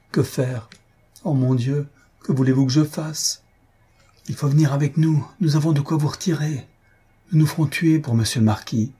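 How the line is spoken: Exclaimed. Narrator (French): Elle s'écria enfin

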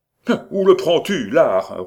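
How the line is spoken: Angry roar. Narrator (French): rugit Étienne en colère

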